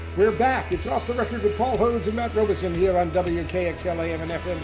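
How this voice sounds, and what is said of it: Announcer-style radio voice. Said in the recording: “I'm talking in my best radio voice.”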